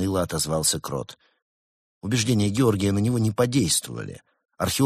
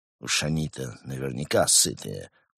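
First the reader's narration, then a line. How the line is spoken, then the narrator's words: Exhausted grumble. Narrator (Russian): проворчал он, обессиленно присаживаясь на скамейку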